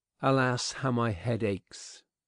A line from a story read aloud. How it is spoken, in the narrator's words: she said wearily